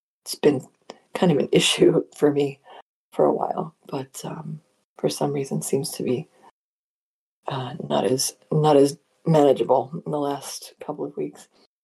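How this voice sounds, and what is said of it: Rough voice, troubled throat. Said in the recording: “You can probably hear it in my voice. ... trying to keep my throat clear”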